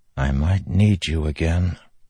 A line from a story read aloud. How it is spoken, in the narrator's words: Kaladin whispered